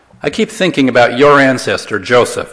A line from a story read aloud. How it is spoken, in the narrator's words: said